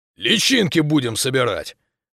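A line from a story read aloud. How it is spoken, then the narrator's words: Barked. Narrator (Russian): рявкнул Гиря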